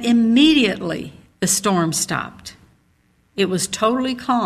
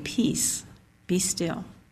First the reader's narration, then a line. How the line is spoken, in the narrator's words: calmly say